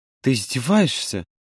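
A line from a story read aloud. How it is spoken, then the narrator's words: Weary exhale. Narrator (Russian): устало выдохнул Юра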